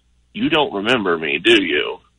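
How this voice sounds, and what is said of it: Very quiet voice. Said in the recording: “in this really quiet voice”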